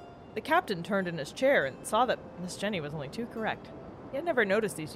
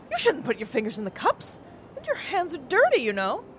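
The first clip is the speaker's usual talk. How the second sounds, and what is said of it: Astonished, dainty girlish voice. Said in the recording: “in his clear voice, modulating the tone, so as to suggest only the astonishment of a daintily nurtured girl”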